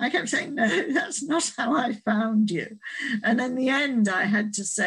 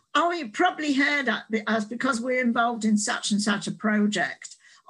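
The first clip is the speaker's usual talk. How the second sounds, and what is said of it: Put-on Australian accent. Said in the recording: “this is my Australian accent”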